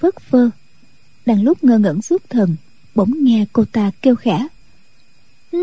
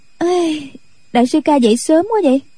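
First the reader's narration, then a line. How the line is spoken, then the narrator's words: Yawning, then laughing. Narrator (Vietnamese): cô dương dài ngáp dài một cái rồi cười nói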